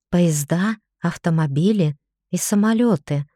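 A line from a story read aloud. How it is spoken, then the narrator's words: Whispered reply, smiling. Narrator (Russian): я зашептала в ответ, улыбаясь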